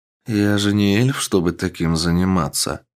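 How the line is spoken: Calm. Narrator (Russian): спокойно сказал он

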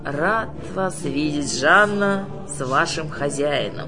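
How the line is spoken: Creaky voice. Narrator (Russian): проскрипел он ведьме

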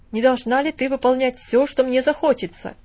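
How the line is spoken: Commanding tone. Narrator (Russian): повелительным тоном произнес он

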